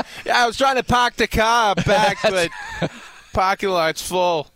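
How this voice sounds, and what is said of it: Imitated Boston accent. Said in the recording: “he sounds like he's from Boston originally”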